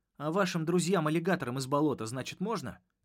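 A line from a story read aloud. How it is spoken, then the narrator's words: Snapping retort. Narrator (Russian): огрызнулся я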